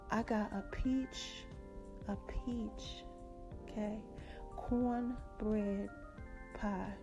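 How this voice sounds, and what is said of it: Put-on sexy voice. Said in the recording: “I'm gonna put my sexy voice on.”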